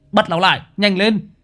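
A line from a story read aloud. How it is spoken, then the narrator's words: Shout. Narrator (Vietnamese): Thằng Nam hét lên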